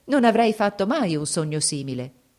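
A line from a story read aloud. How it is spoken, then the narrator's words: Exclaimed. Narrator (Italian): esclamò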